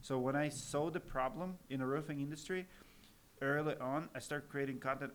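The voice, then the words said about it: Russian accent. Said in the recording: “I'm Russian American... I'm always going to have accent and stuff. So my kids are mocking me how I speak to this day.”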